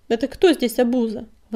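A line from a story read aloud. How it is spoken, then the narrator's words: Indignant bark. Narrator (Russian): возмущенно рявкнула Щербатая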